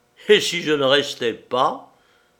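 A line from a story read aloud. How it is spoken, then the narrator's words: Dark sneering laugh. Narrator (French): ricana-t-il d'un air sombre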